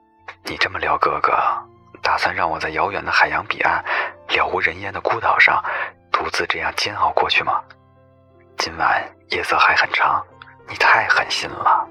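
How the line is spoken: Rueful laughing sigh. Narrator (Chinese): 谢景亭有些懊恼，笑叹一声

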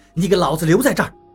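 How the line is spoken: Roar. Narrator (Chinese): 王八吼道

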